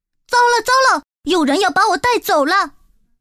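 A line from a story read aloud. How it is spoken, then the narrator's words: Sudden cry. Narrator (Chinese): 竖琴突然叫了起来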